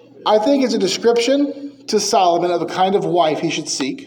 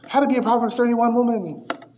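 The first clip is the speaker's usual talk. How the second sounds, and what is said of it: Impression of ladies' Christian radio voice. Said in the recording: “Have you ever listened to ladies' Christian radio? ... It's a good impression.”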